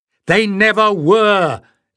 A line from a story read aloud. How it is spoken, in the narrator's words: Leaf shouted back, his stomach churning with horror